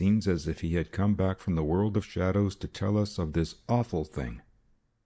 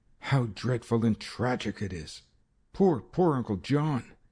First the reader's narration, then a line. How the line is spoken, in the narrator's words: Ruth exclaimed